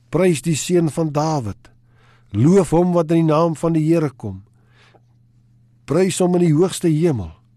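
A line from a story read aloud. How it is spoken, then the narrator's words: Calling out together. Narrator (Afrikaans): hulle roep uit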